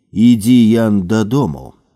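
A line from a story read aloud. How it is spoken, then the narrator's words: Calm male voice. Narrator (Belarusian): спакойным голасам вымавіў Якабіні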